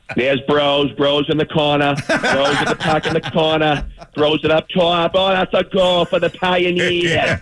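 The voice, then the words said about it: Put-on Boston accent. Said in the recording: “doing the play-by-play with the Boston accent”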